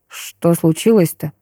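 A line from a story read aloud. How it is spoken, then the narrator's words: Muttering. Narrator (Russian): пробормотал Егор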